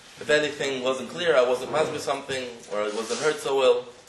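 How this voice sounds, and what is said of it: American accent. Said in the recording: “I have a different accent, I'm from America.”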